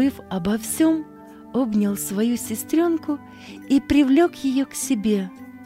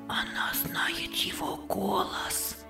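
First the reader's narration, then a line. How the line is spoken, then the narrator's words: Boys whispering together. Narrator (Russian): шептались мальчики между собою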